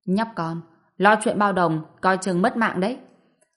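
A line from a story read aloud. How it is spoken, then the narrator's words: Angry, cold man. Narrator (Vietnamese): Người đàn ông râu vàng giận dữ hầm hầm, lạnh lùng nói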